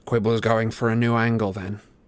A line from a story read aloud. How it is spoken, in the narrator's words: Harry asked coldly